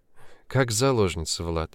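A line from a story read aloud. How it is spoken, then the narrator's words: Sad smiling. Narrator (Russian): грустно улыбнулась будущая теща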